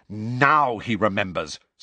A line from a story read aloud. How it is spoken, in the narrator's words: snarled Angelina